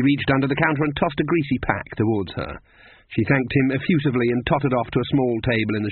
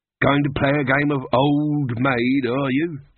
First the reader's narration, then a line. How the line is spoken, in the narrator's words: said the barman